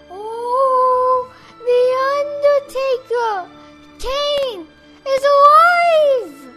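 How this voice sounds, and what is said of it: Impression of Paul Bearer. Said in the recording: “Oh, that was Paul Bearer! ... That was very good. I actually thought Paul Bearer was sitting next to me.”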